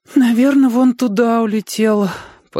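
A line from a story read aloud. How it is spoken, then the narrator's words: Penitent sigh. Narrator (Russian): покаянно вздохнул Олики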